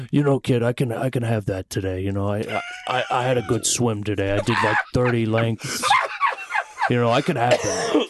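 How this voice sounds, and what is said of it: Imitates another person's voice. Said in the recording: “doing an impersonation of you. Let's hear more. does Tony.”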